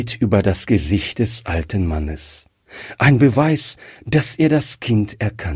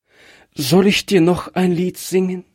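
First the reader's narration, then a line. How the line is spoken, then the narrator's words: Child's trembling question. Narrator (German): Das Kind fragte mit bebender Stimme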